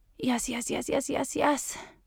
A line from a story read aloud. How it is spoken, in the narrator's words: she felt herself insensibly moaning as the orgasm burst deep inside her